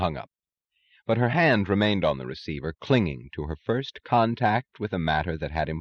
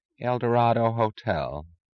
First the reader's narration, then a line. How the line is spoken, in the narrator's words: said a woman's drowsily resentful voice